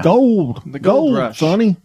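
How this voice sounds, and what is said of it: Old miner accent. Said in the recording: “I'm doing an old minor accent.”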